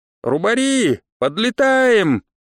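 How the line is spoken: Shouting. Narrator (Russian): крикнул я

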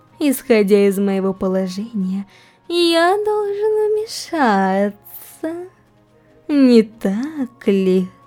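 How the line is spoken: Drawn-out. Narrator (Russian): Протянул Розвали

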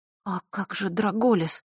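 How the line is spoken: Whisper. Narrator (Russian): прошептала Василиса

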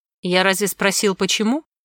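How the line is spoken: Dry interrupting man. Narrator (Russian): сухо перебил мужчина

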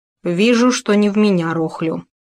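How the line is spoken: Sighing. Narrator (Russian): вздохнул дядюшка

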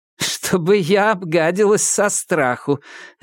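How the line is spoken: Laughing. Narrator (Russian): Риджби засмеялась

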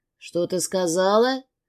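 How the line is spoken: Heated growl. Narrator (Russian): Прорычал горячо

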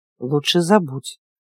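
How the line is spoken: Menacing mutter. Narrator (Russian): угрожающе пробормотал он

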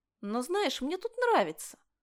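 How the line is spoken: Unexpectedly cheerful. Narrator (Russian): Неожиданно весело закончила

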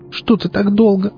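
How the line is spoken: Muffled sobbing. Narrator (Russian): она уткнулась мне в грудь и зарыдала

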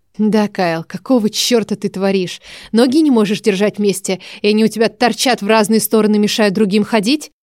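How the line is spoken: Angry hiss. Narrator (Russian): Я зло зашипела

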